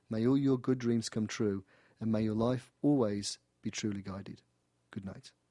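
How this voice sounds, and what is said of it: British accent. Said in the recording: “my little British smile and hear my accent live and in person”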